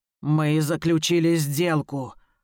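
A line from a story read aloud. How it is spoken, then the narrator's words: Growling reminder. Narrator (Russian): рычащим тоном напоминает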